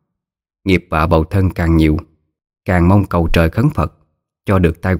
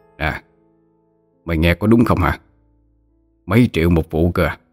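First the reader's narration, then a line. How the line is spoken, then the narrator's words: Middle-aged man whispering. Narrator (Vietnamese): Có một người đàn ông trung niên thì thầm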